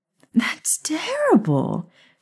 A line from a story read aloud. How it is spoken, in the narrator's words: she gasped